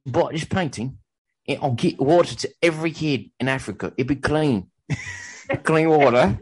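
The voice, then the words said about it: Attempted British accent drifting Australian. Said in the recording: “You're going back to Australia. You started out British and you immediately moved south.”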